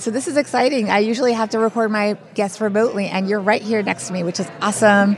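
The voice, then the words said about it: Slightly hoarse voice. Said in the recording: “Our voices are a little bit hoarse because we are recording from FinCon”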